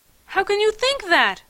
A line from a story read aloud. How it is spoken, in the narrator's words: I cried